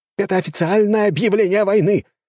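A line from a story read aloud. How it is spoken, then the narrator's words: Shout. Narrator (Russian): крикнул один из них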